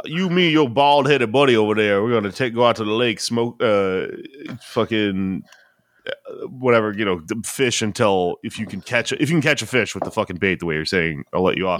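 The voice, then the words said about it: Put-on Cajun accent. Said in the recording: “a Cajun accent is so much fucking fun to do.”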